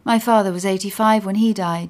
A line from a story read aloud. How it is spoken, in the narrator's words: says